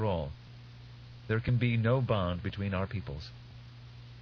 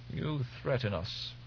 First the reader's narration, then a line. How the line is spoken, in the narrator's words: he muttered